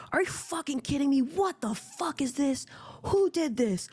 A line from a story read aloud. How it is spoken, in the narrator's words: a man like screaming